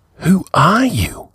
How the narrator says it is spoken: he whispered

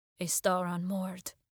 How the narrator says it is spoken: he muttered, self-conscious about his poetry

